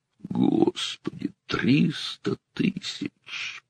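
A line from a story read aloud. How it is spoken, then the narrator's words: Groaning. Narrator (Russian): простонал Зиненко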